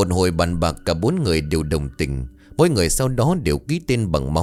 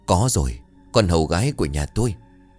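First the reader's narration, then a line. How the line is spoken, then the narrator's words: Soft sudden hiss. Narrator (Vietnamese): Ông Cần chợt rít lên khe khẽ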